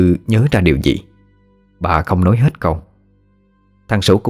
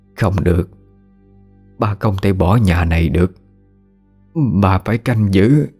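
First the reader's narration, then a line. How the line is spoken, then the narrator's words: Trembling voice, old woman. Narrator (Vietnamese): Bà cất giọng run run nói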